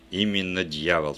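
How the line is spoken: Plain. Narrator (Russian): сказал он

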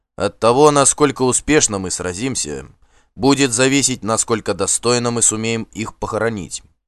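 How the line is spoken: Loud. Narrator (Russian): громко сказал он

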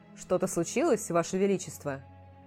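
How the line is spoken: Dry question. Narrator (Russian): сухо спросил Дэриан

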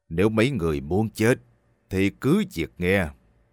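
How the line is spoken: Frightening voice. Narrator (Vietnamese): khuôn mặt ông ta nhăn lại một cách xấu xí, nói bằng giọng đáng sợ

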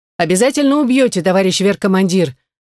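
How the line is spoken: Loud agreement. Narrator (Russian): громко ответила я, соглашаясь

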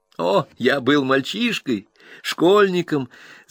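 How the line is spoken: Embarrassed laugh. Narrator (Russian): засмеялся, но все же немножко смутился

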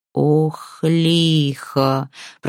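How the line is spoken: Sudden groan. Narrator (Russian): простонал вдруг Збуд

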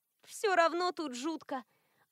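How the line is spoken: Sigh. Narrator (Russian): Альма вздохнула

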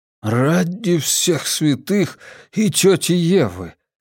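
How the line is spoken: Loud exhale. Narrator (Russian): шумно выдохнул он

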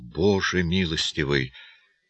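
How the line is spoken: Muttered. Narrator (Russian): Зэму пробормотал

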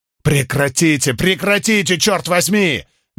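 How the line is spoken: Strained yell. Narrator (Russian): надсадно заорал Джонни

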